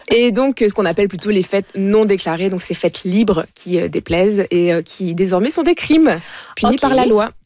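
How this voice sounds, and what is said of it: Speaker's own regional accent. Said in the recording (French): “On ne se moquera pas de mon accent ce matin... La diversité d'accent est très importante à notre micro.”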